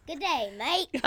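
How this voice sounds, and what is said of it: Australian accent. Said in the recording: “with an Australian accent ... Ah, perfect.”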